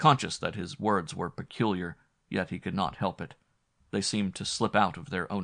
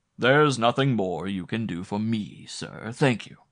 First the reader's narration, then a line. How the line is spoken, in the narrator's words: answered the man in his most silvery tones